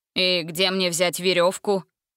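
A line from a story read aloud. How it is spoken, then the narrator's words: Grumbled. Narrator (Russian): проворчал он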